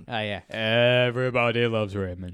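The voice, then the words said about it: Imitates another person's voice. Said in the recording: “my impersonation ... That's pretty good.”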